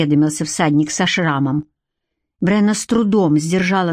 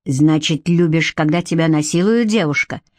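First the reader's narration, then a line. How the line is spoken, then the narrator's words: Growled. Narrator (Russian): прорычал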